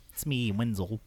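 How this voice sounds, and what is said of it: Elmo-like goblin character voice. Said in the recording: “impersonation. Wenzel is just fucking Elmo ... a little like goblin”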